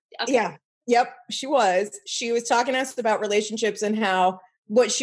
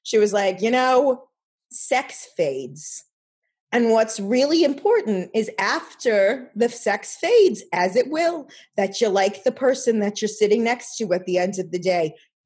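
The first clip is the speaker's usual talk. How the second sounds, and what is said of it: Imitated New York Jewish accent. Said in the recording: “she was in my grandmother's like very New York Jewy accent”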